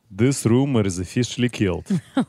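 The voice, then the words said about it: Put-on Russian accent. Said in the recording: “I think we need it more Russian. ... say it with a Russian accent?”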